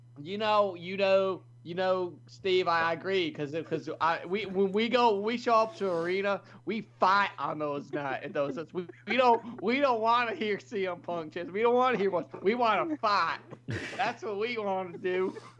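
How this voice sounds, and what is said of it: Impression of JBL. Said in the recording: “your impression of JBL sounds a lot like Jerry fucking Jarrett”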